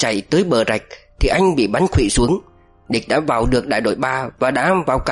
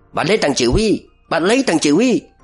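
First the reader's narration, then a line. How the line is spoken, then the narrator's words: Many voices shouting. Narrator (Vietnamese): chúng nó hét ầm lên từ bốn phía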